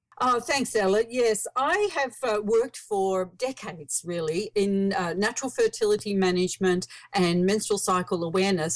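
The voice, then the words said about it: Australian accent. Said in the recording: “I live in Australia. You might hear from my accent.”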